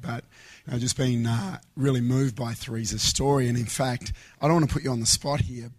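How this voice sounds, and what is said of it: Weak, strained voice. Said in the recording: “excuse my voice, but it's not quite there today”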